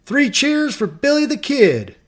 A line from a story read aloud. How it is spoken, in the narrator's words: yelling